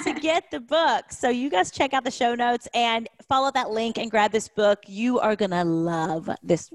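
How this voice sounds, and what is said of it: Southern US accent. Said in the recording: “I hear that accent, girl... I'm from Kentucky... a little bit country, a little bit redneck, a little bit southern”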